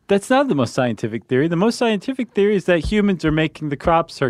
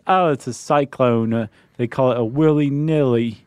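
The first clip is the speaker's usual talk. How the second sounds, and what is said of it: Put-on Australian accent. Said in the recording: “That was my Australian accent, too.”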